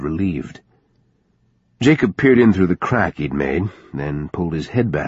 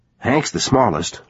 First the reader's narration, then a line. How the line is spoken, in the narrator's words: Lou said quickly